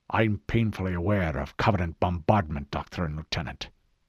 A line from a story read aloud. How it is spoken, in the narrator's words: Hood growled